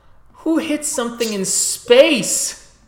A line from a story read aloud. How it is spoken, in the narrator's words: Cham yells, his uh, hands cupped over his mouth